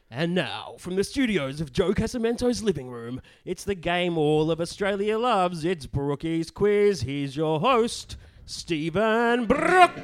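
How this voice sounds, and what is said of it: Game show announcer voice. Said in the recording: “my very best game show voice”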